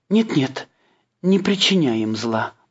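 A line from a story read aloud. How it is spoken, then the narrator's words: Pleading. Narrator (Russian): взмолилась она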